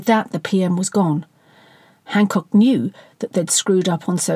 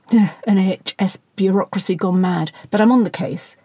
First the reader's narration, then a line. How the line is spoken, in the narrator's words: Hancock spluttered